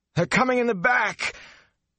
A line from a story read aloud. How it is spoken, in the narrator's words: The words came out in a croak, but at least they came out